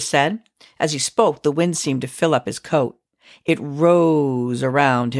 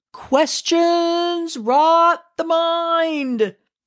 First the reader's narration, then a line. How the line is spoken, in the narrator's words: he hollered